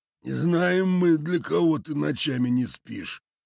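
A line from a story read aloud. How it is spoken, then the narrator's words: Creaky voice. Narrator (Russian): проскрипел один из участников совещания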